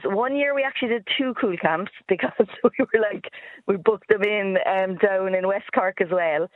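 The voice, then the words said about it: Cork Irish accent. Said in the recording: “my Cork accent”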